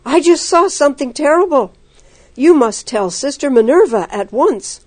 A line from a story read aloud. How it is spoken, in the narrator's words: Anna exclaimed